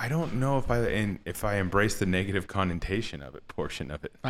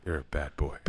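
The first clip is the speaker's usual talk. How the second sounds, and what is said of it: Late-night radio DJ voice. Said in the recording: “I have to say it that way ... in my late night DJ voice ... such a field day with that voice”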